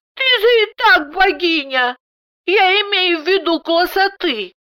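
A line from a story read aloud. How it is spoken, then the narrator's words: Shrill squeal. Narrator (Russian): Даша взвизгнула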